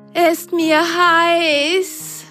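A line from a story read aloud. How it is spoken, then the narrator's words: Panting. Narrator (German): keuchte die eine Socke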